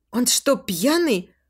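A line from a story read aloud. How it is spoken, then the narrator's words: Indignant whisper. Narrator (Russian): Спрашиваю возмущенным шепотом у Быстрицкого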